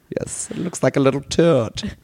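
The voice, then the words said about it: Put-on German accent. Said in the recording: “I decided to make him German. And so he started talking like this ... I'm very impressed with your accent ... I just talk like this”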